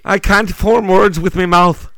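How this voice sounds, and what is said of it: Put-on Irish accent. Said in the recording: “That was my Irish impression. ... That wasn't bad.”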